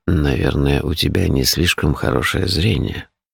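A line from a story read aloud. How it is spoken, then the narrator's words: Grumbling. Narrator (Russian): проворчал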